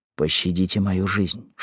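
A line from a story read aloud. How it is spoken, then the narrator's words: Whispering. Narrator (Russian): шепнул он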